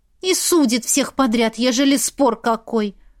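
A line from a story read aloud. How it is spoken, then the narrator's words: Curt angry remark. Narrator (Russian): зло бросила Илона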